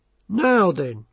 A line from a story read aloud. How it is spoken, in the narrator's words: said Carrot kindly